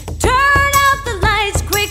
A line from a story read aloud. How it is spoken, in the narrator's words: she shouted out to Pat